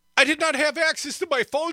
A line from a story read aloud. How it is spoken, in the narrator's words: Santos pleaded